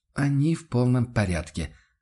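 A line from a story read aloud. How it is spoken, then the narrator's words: Dejected sigh. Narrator (Russian): вздохнул Ван Ален удрученно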